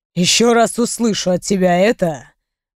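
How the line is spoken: Menacing growl, man. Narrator (Russian): грозно прорычал мой мужчина

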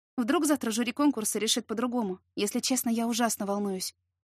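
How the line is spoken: Exhausted sigh. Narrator (Russian): Измученно вздохнула я

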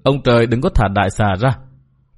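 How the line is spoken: Muttered prayer. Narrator (Vietnamese): Hà Ngọc Trì vừa lẩm bẩm khấn vái

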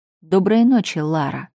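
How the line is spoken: Calm, casual. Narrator (Russian): спокойно, как ни в чем не бывало, пожелал снежный лорд

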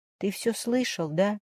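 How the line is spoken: Quiet sob. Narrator (Russian): Тихо всхлипнула Варя

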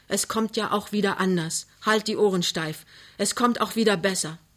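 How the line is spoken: Exclaiming. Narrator (German): ruft aus

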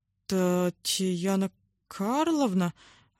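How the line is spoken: Bewildered announcement. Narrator (Russian): растерянно объявил он

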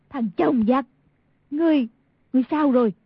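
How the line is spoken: Crying out. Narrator (Vietnamese): Y thị kêu lên

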